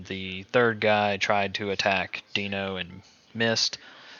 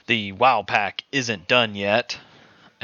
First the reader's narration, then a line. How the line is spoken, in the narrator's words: The guy running away shouted